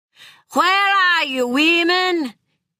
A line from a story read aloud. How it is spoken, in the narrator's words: He shouted